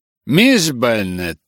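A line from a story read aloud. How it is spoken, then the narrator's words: Displeased tone. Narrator (Russian): ответила ее светлость недовольным тоном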